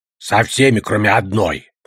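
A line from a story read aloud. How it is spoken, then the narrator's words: Grumble. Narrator (Russian): проворчал Одноглазый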